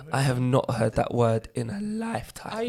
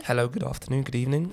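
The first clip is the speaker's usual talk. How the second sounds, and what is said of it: Put-on polite phone voice. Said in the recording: “put on your phone voice”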